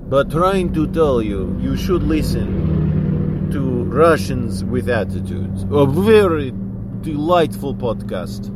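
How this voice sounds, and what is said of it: Deliberately bad Russian accent. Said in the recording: “doing very bad Russian accent”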